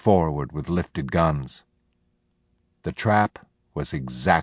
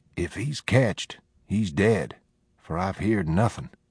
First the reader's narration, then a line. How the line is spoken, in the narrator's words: Penny whispered